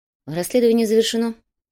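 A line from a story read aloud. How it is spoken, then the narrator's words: Calm. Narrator (Russian): спокойно сообщил дознаватель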